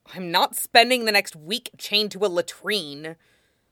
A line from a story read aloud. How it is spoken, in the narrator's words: Zuko growled